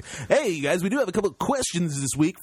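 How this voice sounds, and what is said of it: Exaggerated radio announcer voice. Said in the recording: “I feel like I'm super like radio voice guy this week.”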